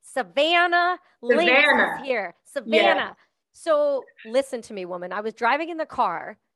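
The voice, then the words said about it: Strong Canadian accent. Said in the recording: “You have a strong Canadian accent.”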